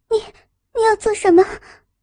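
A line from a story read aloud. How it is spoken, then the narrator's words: Terrified asking. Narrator (Chinese): 骇然不住的问道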